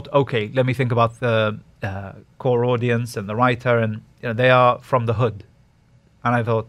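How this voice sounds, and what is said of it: Usual voice. Nothing is said of it.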